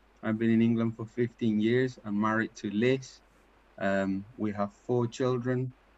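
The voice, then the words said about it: Paraguayan Spanish accent in English. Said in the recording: “as you can tell by my accent, I'm not English. I'm from Paraguay”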